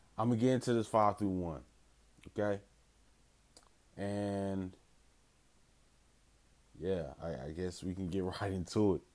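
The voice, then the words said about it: Groggy, low-energy voice. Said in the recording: “I sound kind of groggy, kind of like low energy. I'm kind of just waking up”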